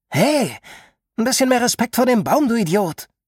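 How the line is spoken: Calling out. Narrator (German): ruft Hallie

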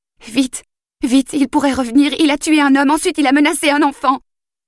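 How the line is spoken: Veiled, faltering voice. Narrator (French): Sa voix se voila

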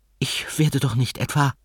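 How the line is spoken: Trembling question. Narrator (German): fragte ihr Spiegelbild mit bebender Stimme

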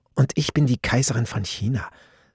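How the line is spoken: Saying quietly. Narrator (German): sagte sie leise

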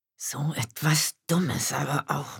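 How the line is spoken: Woman murmuring. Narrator (German): murmelte sie

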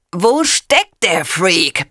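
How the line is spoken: Bellowing. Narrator (German): brüllt

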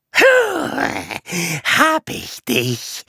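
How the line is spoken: Hissing cat. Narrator (German): Die Katze faucht

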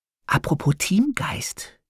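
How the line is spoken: Whispered in ear. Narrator (German): flüstert mir Harpe ins Ohr

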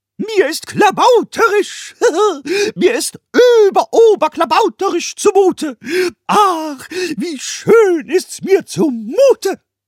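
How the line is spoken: Blissful yelling. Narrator (German): Pumuckl voller Seligkeit schrie dazu

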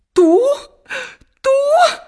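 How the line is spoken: Stepsisters exclaiming in astonishment. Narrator (Spanish): exclamaron sus hermanastras, boquiabiertas de asombro

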